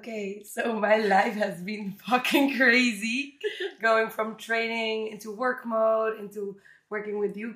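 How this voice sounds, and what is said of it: Raspy, hoarse morning voice. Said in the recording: “I have a very sexy, raspy morning voice ... my throat has been fucked up for the last month”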